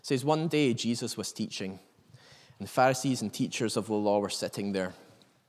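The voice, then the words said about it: Scottish Northern Irish accent. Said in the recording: “my Scottish Northern Irish accent”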